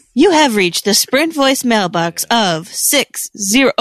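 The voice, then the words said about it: Imitates an automated voicemail greeting. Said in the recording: “I'm such a good actress ... It's a pretty good impression.”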